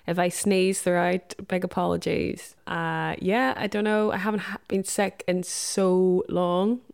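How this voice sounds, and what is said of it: Muffled, sniffly voice from cold. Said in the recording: “I have a cold. So this is why my voice sounds like this, very muffled and sniffly”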